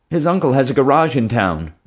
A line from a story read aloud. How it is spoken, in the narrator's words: Jim blurted out